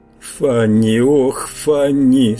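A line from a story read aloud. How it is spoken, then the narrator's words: Moaning. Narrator (Russian): стонал я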